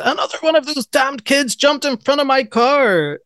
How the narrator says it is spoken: screams

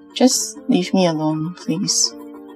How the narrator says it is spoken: Ned mumbled

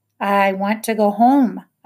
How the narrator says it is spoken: I said more loudly

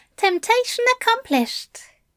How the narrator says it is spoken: he said brightly, trying to match Crowley's jovial tone

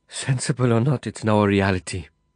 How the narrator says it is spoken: she said, her voice trembling in the shudder of a resigned and pitying shrug

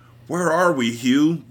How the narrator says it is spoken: Robert moaned

